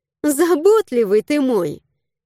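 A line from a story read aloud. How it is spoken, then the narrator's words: Giggling. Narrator (Russian): хихикнула я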